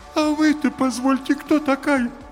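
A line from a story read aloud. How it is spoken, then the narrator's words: Thin whining voice. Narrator (Russian): тонким плачущим голосом спросил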